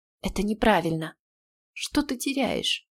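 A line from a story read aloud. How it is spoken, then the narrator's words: Whisper. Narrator (Russian): снова прошептал он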